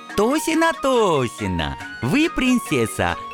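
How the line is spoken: Joyful smiling dragon. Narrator (Russian): радостно заулыбался дракон

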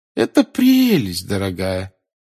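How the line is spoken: Old woman, falsely cheerful. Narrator (Russian): сказала бабушка Невилл наигранно веселым голосом

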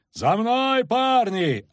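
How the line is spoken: Shouting. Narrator (Russian): орал Кагыр

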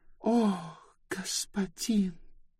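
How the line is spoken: Whispered. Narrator (Russian): прошептала Нови

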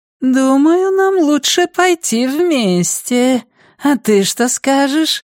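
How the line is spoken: Thin voice, as to child. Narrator (Russian): спросил он тоненьким голосом, словно обращался к ребенку

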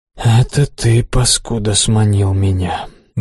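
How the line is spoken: Indignant grumbling. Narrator (Russian): бурчал возмущенный слюнь

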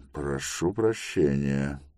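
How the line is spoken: Surprised mutter. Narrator (Russian): пробормотал Тревис, да нельзя удивленный

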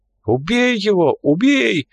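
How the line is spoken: Frightened yelling. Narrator (Russian): вопил Шинджа, испуганно

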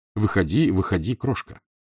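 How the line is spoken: Very gentle. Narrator (Russian): сказал очень ласково

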